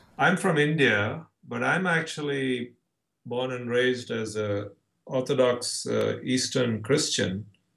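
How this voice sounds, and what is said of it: Lovely foreign accent. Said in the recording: “your lovely accent”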